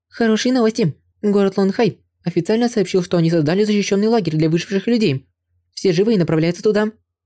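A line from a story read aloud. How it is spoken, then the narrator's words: Agitated report. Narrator (Russian): взволнованно сообщила Ван Фан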